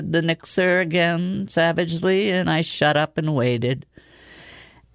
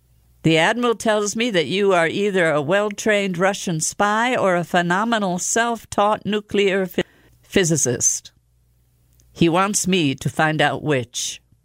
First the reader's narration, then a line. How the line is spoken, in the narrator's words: he asked cheerfully